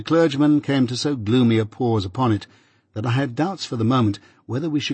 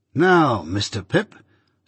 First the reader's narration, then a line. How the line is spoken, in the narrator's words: said Wemmick, triumphantly